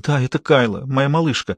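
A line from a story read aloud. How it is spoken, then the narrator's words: Breathless whisper. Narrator (Russian): Хейзел перевела дух и прошептала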